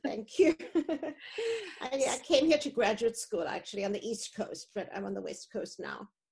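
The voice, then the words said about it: Foreign accent in English. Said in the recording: “I haven't lost my accent. ... it's a lovely accent.”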